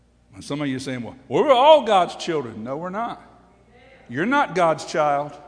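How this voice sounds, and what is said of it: Usual voice. Nothing is said of it.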